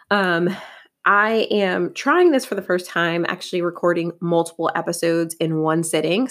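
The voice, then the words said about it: Scratchy, crackly voice. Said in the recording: “my voice is a little bit scratchy ... my voice is starting to sound a little bit crackly”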